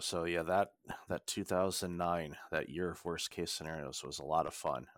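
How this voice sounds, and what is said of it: Sarcastic tone. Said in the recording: “I say that sarcastically, of course”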